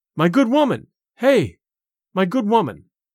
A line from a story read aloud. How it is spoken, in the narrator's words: cried